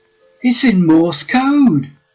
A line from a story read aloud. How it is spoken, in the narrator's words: he exclaimed